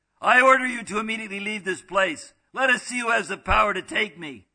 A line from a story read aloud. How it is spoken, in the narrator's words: Being enraged, the yogi cried